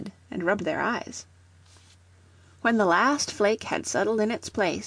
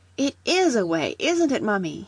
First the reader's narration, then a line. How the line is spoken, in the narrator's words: he cried